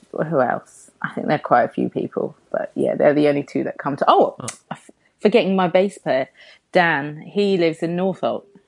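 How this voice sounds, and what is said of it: London accent, Harlesden twang. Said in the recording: “You've got a great London accent as well. I wish I had your voice. ... It's probably the Harlesden twang.”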